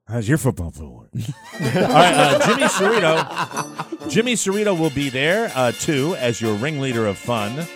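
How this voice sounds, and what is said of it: Imitates another person's voice. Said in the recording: “my Uncle Dave impression”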